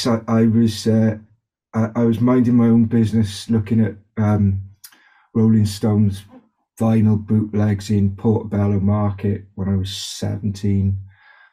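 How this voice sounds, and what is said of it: Faint Welsh accent. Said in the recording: “I grew up in South Wales in Cardiff. The accent kind of is still there. It morphs a little bit.”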